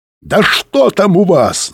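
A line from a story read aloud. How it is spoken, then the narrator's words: Shouting. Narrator (Russian): заорал Быков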